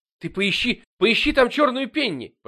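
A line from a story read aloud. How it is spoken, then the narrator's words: Near shout. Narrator (Russian): почти закричал Джейми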